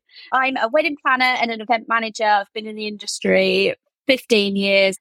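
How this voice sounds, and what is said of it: Slight rural English Norfolk accent. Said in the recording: “Love your accent. ... I'm from the UK. I'm actually particularly from an area called Norfolk, so I might have a slight farmer accent.”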